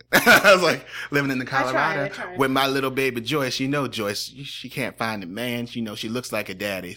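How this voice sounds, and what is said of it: Put-on Southern accent. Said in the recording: “I can do a Southern accent.”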